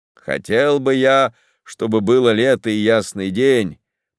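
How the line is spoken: Grumbling. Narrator (Russian): проворчал Лаулис

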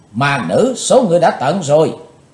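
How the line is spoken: Shrill shout, two girls. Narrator (Vietnamese): Hai thiếu nữ dẫn cung trang thấy thiếu nữ bịt mặt đã thọ thương khá nặng, đồng thanh hét lên lanh lảnh

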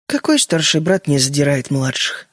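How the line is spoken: Sad smiling voice. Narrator (Russian): грустно улыбнулась Джоан

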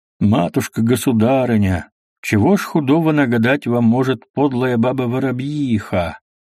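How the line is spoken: Pleasant sing-song. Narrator (Russian): нараспев приятным голосом ответил Зотов

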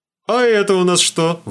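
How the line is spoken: Excited shout. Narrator (Russian): восторженно крикнул

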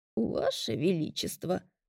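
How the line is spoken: Cracked old woman's voice, smiling. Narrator (Russian): с улыбкой произнесла женщина чуть надтреснутым старческим голосом

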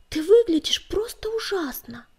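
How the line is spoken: Exclaimed. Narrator (Russian): воскликнула она

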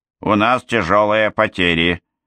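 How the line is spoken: Gloomy summing up. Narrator (Russian): мрачно подвела итог Момби

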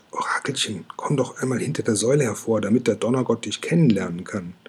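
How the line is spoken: Whisper. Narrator (German): Kokosnuss flüstert

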